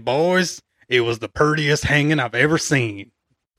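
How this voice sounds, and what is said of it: Put-on rustic folksy accent. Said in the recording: “I'm going to do an accent.”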